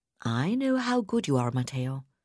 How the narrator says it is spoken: Abigail replied soothingly

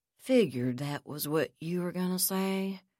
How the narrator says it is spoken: Magruder said gloomily

